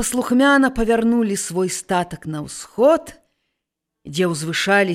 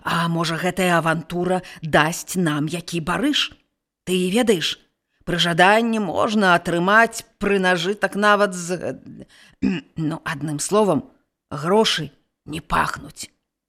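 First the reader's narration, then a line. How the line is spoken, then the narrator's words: Old shepherd whispering. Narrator (Belarusian): прашаптаў стары пастух маладому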